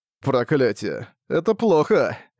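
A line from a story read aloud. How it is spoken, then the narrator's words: Sighing. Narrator (Russian): Вздохнул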